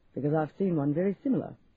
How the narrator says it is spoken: laughed

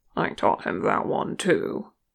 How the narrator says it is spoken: murmured

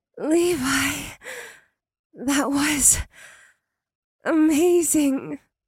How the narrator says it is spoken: she purred, though he saw she was still blushing

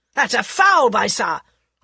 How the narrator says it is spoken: Osborne shouted angrily

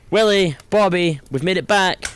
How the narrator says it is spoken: yelled Simon

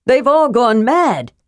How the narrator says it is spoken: shouted, trying to make himself heard above the chaos

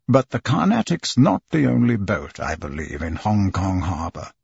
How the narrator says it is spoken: Phileas Fogg say in his calm voice

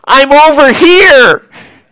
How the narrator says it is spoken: he yells out across the lobby

